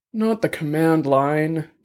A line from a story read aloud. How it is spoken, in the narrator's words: Dex groaned